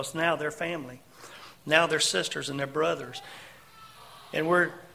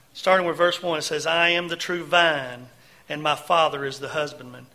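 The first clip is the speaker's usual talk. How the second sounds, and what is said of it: Put-on Southern Georgia accent. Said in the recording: “with a Southern Georgia flair of accent”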